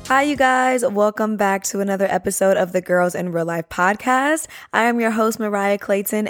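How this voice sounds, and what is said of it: Strained, worn-out voice. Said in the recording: “apologize for my voice. ... I was just constantly yelling for 2 days straight.”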